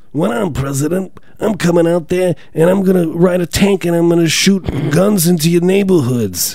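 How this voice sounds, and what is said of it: Imitates another person's voice. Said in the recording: “That's what Bernie Sanders sounds like. It's an uncanny impersonation of him.”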